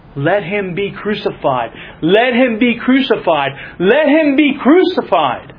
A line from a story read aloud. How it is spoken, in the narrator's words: The people just simply cried out all the more